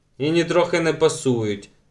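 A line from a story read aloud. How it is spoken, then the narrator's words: Angry objection. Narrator (Ukrainian): сердито заперечила Туне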